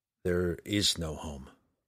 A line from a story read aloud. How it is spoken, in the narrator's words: Drizzt muttered to the frosty wind